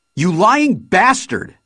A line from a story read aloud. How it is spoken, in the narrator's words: she shouted